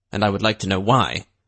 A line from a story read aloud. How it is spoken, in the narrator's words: Drake said, his tone peevish